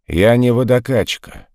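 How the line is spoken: Rude reply. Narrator (Russian): грубо ответил он на просьбу Пацевича

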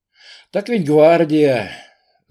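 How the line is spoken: Sighing. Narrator (Russian): вздохнул он

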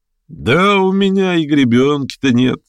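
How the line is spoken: Laughing. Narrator (Russian): засмеялся Шатов

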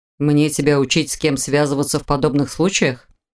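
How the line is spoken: Dry curt retort. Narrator (Russian): Сухо кинул ей Непогодин

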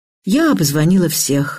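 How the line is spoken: Sad voice. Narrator (Russian): грустно сказала Ксюша

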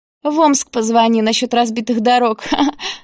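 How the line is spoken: Laughing. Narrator (Russian): засмеялась Юлия

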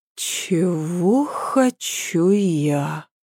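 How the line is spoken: Slow. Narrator (Russian): проговорила Ася медленно

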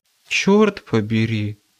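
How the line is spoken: Stunned faint whisper. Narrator (Russian): обалдело, едва слышно прошептал

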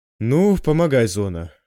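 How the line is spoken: Noisy exhale. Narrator (Russian): шумно выдохнул Федор

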